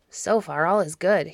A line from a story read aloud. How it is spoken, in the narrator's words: he muttered to himself